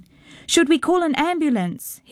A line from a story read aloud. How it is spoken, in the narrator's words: he heard his father shouting